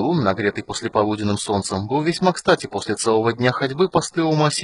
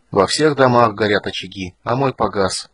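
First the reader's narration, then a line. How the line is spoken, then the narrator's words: Quiet. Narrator (Russian): проговорил он тихо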